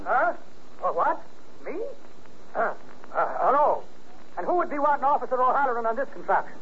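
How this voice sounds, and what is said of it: Slight Irish brogue. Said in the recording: “Got a touch of brogue in his voice?”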